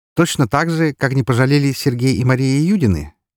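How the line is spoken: Sudden carefree question. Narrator (Russian): неожиданно спросил я его все тем же беззаботным тоном

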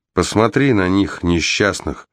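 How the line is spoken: Quiet. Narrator (Russian): тихо произнесла Глэс

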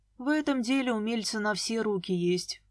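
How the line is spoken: Sighing. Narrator (Russian): вздохнул Дима

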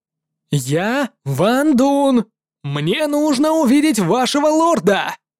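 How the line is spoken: Shouting. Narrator (Russian): прокричал молодой Эйнхирий

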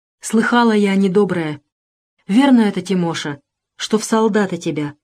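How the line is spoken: Whispered question. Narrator (Russian): Шепотом спросила Фиска

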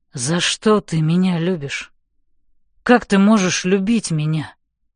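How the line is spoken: Hoarse question. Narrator (Russian): Сипло спрашивает он

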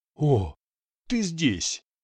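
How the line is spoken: Surprised exclamation. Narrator (Russian): воскликнул при виде репортера

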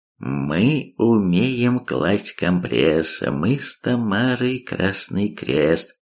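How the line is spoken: Thoughtful drawl. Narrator (Russian): задумчиво протянул Гипс

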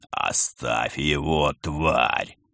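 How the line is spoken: Growled. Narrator (Russian): рыкнул Герман

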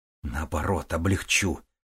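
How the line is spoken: Hiss. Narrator (Russian): прошипел Макс

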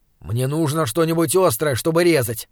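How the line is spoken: Grumbling. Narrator (Russian): проворчал он

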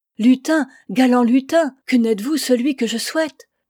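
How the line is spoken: Exclaiming. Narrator (French): elle s'écria

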